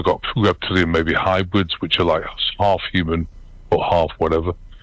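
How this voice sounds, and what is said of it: British accent. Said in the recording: “I've still got a British accent”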